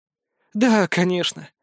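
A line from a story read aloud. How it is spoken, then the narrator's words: Slightly saddened agreement. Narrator (Russian): слегка погрустневшим голосом согласилась Голицына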